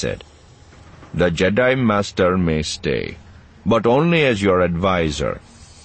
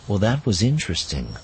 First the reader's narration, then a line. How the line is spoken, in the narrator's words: Luke said quietly